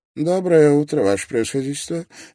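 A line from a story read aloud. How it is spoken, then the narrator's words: Barely audible. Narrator (Russian): едва слышно произнес Аристотель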